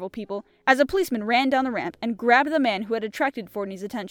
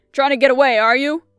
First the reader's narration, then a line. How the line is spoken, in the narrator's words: bellowed the cop